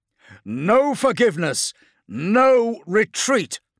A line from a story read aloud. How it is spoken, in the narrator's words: Belial roared